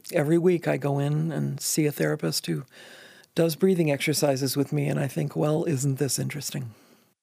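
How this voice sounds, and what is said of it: Slightly strained, wonky voice. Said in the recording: “You can probably hear that my voice is a little wonky”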